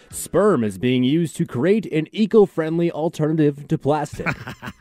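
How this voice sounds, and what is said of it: Radio announcer voice. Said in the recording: “I'll say it in my radio announcer voice.”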